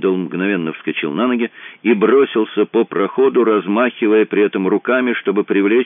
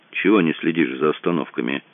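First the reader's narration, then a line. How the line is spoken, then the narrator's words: Grumbling. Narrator (Russian): пробурчал он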